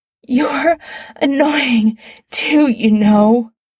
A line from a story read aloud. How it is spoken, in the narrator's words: Adam gasps